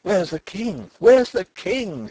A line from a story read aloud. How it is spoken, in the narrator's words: he cried